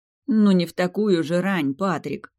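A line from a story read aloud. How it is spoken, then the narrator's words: Tired moan. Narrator (Russian): Простонала я устало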